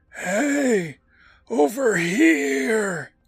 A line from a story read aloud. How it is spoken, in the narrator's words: A voice calls out to Chuck, wheezing and choking